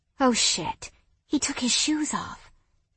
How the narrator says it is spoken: Sophia whispered with a giggle

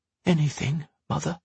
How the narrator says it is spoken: Henry whispered

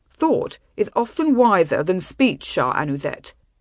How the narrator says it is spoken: he said in his coldest, loftiest tones

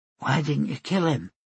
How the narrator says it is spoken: She asked in a quiet voice

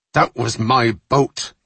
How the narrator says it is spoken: Roselli snarled

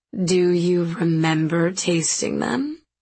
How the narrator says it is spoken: she asked again, slowly, like I was dumb

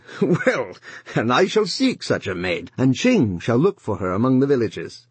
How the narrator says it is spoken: he said, laughing

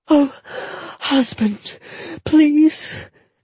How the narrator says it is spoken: Jetta gasped

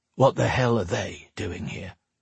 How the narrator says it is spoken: Drake muttered

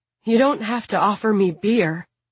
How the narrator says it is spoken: Kira gasps apologetically

